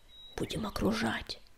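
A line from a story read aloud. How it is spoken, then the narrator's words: Whisper. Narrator (Russian): шепнул он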